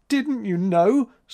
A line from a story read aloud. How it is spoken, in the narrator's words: sobbed April